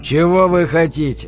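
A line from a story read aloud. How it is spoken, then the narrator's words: Calm inquiry. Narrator (Russian): спокойно осведомился Дэнни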